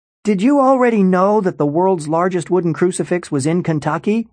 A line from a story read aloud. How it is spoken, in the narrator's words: he shouted